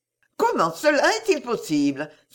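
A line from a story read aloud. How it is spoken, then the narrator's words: Flustered exclamation. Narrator (French): s'écria Emma en se tournant vers lui et rougissant beaucoup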